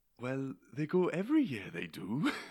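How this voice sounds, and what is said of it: Put-on Welsh accent. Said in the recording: “that's like the only thing I can say in a Welsh accent”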